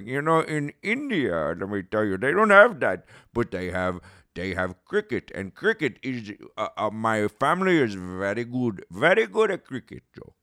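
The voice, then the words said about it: Weak put-on Indian accent. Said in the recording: “I don't do a very good Indian accent”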